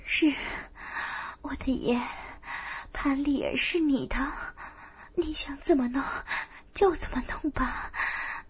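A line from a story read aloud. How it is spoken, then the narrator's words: Trembling, submissive. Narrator (Chinese): 内心不由升起甘愿屈服的柔弱，颤声道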